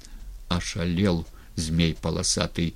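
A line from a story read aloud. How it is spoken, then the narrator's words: Quiet. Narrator (Russian): негромко сказал Прозоровский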